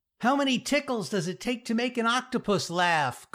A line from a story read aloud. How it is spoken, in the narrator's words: Carly yelled